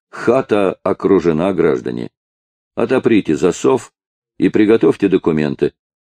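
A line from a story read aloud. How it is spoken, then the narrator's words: Calm, with a chuckle. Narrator (Russian): спокойно, со смешком сказал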